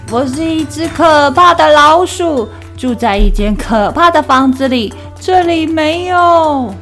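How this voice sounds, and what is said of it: Loud, brave-sounding mouse voice. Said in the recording (Chinese): “用它最大声、最勇敢的声音说”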